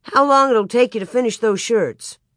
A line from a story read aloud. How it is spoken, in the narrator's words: White cheerfully